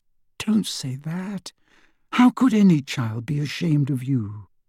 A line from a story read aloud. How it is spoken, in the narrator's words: whispered Hermione, tears in her eyes